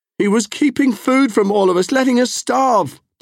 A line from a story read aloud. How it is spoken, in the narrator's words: Temujin cried